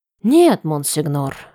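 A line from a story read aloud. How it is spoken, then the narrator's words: Noisy sigh. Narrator (Russian): шумно вздохнул Сашни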